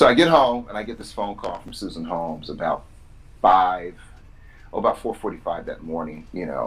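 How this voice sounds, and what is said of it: Usual voice. Nothing is said of it.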